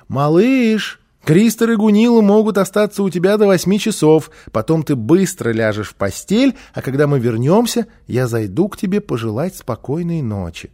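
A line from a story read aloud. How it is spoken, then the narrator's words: Mother calling from hallway. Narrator (Russian): мама крикнула из прихожей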